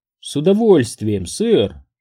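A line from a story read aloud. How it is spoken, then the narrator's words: Bashful girlish laugh. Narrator (Russian): Лизбет рассмеялась с видом смущенной школьницы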